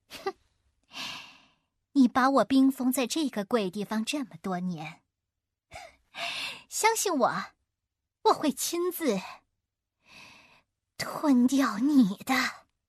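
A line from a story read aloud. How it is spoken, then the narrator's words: Sneering. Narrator (Chinese): 幽灵叔又冷笑着说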